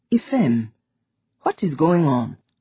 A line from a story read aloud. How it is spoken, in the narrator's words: She sighed